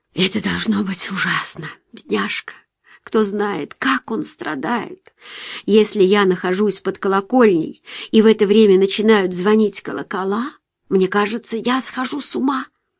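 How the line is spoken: Mother muttering. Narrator (Russian): Мать бормоча

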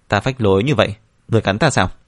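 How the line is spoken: Provocative reply. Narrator (Vietnamese): trả lời như vậy để cho Hoàng Thiên tức giận

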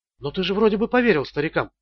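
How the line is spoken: Quick speech. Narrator (Russian): быстро говорила

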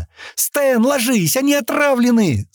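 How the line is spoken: Shout. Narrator (Russian): снова крикнула Шатти

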